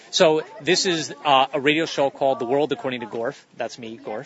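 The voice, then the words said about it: Clear radio-announcer style voice. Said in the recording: “you have a radio voice ... the way you pronounce things is very, very clear”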